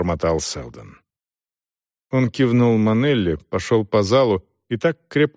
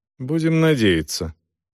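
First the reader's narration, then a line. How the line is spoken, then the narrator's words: Dry interruption. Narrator (Russian): сухо оборвала его Дорс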